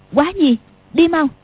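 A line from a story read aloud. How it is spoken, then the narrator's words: Sudden sharp shout. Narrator (Vietnamese): Tiểu Long Nữ bật dậy quát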